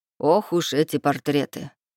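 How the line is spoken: Wry snort. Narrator (Russian): хмыкнул Клей

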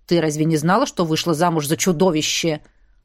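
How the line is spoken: Growl. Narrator (Russian): рыкнул Ронал

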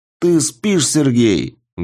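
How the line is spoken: Loud bark. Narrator (Russian): гаркнул он

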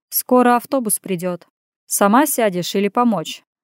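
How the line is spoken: Hinting, with a snort. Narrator (Russian): намекнул я и, хмыкнув, уточнил

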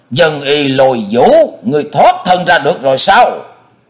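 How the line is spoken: Exclaiming. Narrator (Vietnamese): Hải Ma giáo chủ kêu lên

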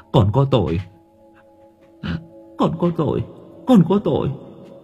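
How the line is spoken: Muttering repeatedly. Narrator (Vietnamese): miệng lão cứ lẩm bẩm

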